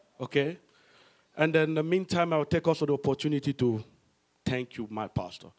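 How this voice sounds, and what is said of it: African accent. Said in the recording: “suffer a little bit with an African accent”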